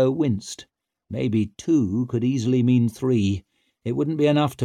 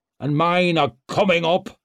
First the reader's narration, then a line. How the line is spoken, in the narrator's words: boomed Barazin